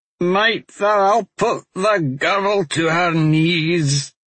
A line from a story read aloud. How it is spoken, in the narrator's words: Raybert said unexpectedly, cackling with every word